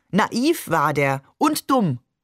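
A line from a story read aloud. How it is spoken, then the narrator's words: Call. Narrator (German): rief Maman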